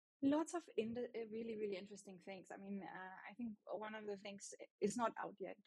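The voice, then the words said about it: German-accented English. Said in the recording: “my German accent”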